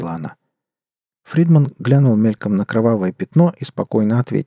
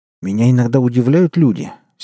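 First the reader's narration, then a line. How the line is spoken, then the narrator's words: Angry. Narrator (Russian): сердито произнес Фридман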